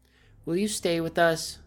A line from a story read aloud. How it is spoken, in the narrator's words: blurts out